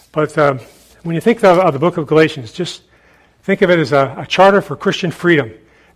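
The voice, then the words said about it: Hoarse, failing voice. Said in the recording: “I'm losing my voice, so I need to shut down here before it goes completely.”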